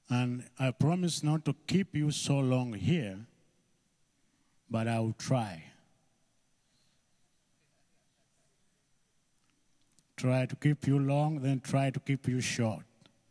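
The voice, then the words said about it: Ugandan-accented English. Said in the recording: “I have an accent. Some words, I pronounce them differently. ... mix the British English, the Ugandan language, and then we make our own English there. Pronunciation of words.”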